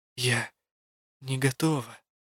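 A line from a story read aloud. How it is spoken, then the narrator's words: Whisper. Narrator (Russian): шепнула я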